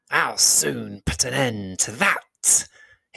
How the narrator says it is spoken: hissed the angry spider

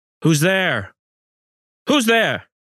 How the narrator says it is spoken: Then I yelled

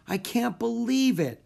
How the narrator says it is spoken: Annie wailed

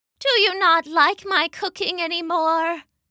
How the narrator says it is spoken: Mama asked sadly

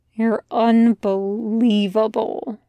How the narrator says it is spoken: Gabriel mumbles into Jack's hair

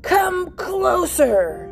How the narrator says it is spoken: roared

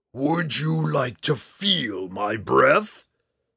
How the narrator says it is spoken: Hephaestus snarled

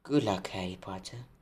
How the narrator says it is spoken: said Ferenc

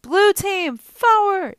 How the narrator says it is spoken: Annabeth yelled

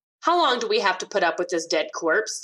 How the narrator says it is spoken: the widow asked

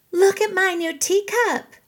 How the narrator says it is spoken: Willow loudly squealed

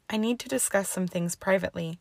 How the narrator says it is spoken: sighed, suddenly realizing how tired she was

